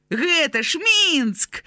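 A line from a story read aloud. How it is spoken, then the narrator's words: Joyful shout. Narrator (Belarusian): радасна закрычаў Граня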